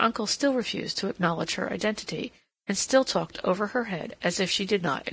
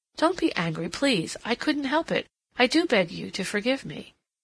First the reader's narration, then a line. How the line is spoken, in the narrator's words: Cassandra exclaimed impulsively